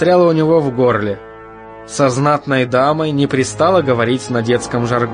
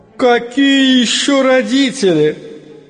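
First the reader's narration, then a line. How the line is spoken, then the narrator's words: Scornful laugh, woman. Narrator (Russian): Презрительно засмеялась женщина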